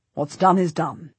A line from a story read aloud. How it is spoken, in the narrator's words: Richard says sternly